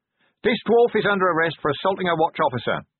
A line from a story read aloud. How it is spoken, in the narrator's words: he shouted